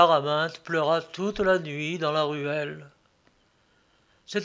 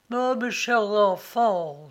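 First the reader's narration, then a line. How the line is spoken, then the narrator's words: Sighing. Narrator (French): soupirait Bélisse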